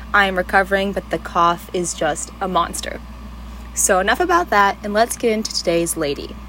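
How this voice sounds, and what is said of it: Scratchy voice from a cold. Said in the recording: “sick as a dog with a cold... my voice is scratchy or it sounds a little funky”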